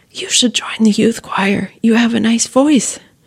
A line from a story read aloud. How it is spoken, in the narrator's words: whispers